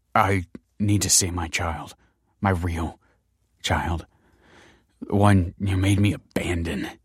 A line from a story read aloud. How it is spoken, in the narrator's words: choked Michael